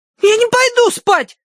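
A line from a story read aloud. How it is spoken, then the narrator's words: Yelling. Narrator (Russian): завопила Агнес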